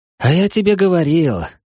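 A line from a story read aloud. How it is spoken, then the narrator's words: Old man sighing. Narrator (Russian): вздохнул старичок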